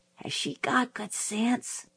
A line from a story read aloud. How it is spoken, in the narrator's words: I whispered to Jim